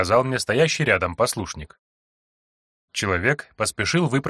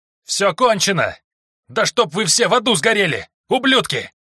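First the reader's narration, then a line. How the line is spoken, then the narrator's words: Full-throated yell. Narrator (Russian): Заорал я во все горло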